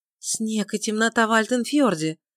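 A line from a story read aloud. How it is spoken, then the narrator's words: Sudden exclamation. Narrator (Russian): внезапно воскликнула Бритта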